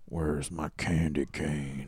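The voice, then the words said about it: Imitates a movie villain's voice. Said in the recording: “your best Rusty Nail impression ... See, that's pretty good.”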